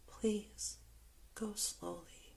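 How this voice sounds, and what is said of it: Whispered line. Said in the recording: “I whisper”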